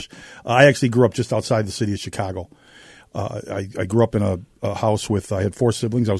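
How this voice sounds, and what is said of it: Noticeable non-local Midwestern accent. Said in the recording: “I can tell from the accent.”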